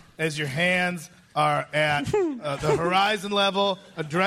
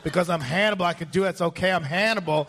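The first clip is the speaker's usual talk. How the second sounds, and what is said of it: Imitates another person's voice. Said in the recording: “Now you all have a Hannibal impersonation.”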